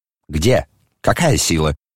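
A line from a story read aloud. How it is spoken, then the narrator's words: Sharp question. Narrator (Russian): резко спросила Елизавета Прокофьевна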